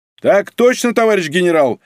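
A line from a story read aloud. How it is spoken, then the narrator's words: Very loud bark. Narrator (Russian): Женька рявкнул так, что Ольга поморщилась и отодвинула трубку подальше от уха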